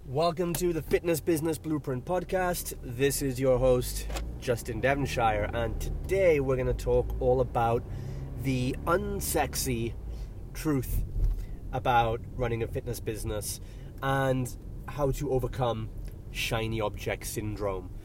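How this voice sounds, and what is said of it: Croaky, congested voice. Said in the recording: “my voice is a bit croaky today. My airwaves are a bit blocked. I've got some swollen sinuses ... strain on breath”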